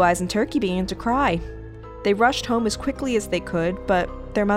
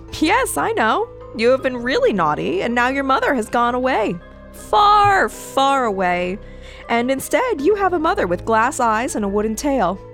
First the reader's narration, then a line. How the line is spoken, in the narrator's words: The mystery girl laughed again and said